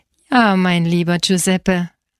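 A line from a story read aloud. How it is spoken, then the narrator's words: Laughing man. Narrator (German): lachte er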